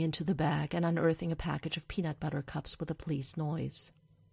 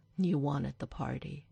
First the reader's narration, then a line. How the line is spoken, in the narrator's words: he sighs